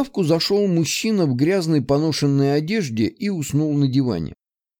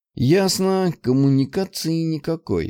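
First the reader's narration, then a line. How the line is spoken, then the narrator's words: Sighing. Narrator (Russian): вздохнул я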